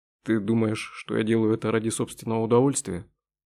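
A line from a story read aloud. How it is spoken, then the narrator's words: Plain. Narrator (Russian): спросил Дронго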